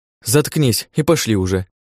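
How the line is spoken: Girl snapping. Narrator (Russian): огрызнулась девушка

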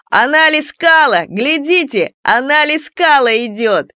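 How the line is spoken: Yelling. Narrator (Russian): орал

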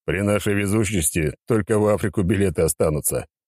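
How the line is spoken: Sudden laughter. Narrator (Russian): Неожиданно рассмеялся Пичуга

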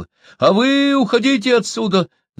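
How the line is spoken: Boy shouting. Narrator (Russian): закричал мальчик

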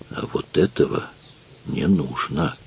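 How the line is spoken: Quiet request. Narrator (Russian): тихо попросил он

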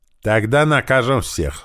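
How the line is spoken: Angry. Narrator (Russian): зло сказал Ран

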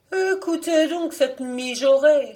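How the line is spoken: Exclaimed. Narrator (French): s'écria-t-elle

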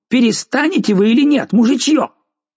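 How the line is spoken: Shouted. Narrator (Russian): Аббат крикнул

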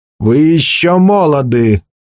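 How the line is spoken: Growled. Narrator (Russian): прорычал главный пленник

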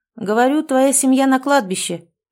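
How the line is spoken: Shouting. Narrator (Russian): прокричал

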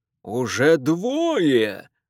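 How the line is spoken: Joyful howl. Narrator (Russian): радостно взвыл Фэрчайлд

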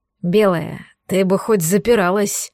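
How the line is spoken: Hoarse reproach. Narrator (Russian): Хрипло выдал мне претензию черный

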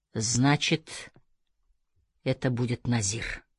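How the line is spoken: Muttering. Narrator (Russian): пробормотал он

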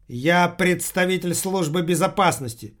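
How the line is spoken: Loud declaration. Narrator (Russian): громко заявил уборщица

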